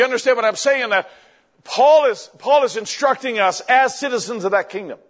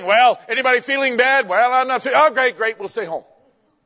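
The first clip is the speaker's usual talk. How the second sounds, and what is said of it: Sarcastic tone. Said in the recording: “I'm being sarcastic.”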